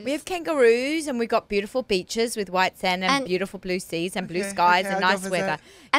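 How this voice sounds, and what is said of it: Australian accent, slight American twang. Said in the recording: “And everybody talks like me ... They think I have an American accent ... I have a bit of a twang ... I didn't sound like an Aussie, even though the accent was an Aussie”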